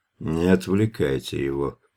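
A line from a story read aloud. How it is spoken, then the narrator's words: Displeased, through gritted teeth. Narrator (Russian): недовольно процедил верховник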